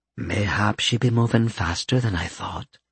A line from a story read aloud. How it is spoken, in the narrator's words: Stacia murmured from where she sat